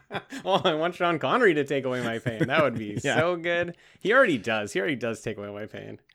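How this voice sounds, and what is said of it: Usual voice. Nothing is said of it.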